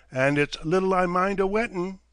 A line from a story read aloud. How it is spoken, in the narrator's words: Hall laughed